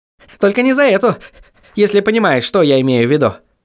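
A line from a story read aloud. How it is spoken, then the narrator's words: Smirking snort, shadow. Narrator (Russian): хмыкнула тень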